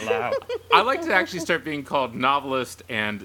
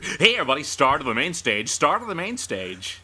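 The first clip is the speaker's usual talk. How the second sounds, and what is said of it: Announcer-style radio DJ voice. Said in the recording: “strip club DJ ... That's actually a really good radio voice.”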